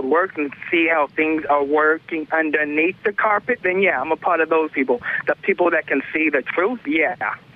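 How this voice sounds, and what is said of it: Distinctive accent resembling a comedian. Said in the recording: “This guy sounds like Cat Williams. ... You sound like Cat Williams. ... make fun of my accent.”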